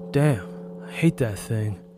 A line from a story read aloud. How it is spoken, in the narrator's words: he cursed under his breath